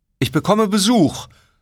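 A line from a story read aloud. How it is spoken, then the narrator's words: Calling out. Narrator (German): rief Kamala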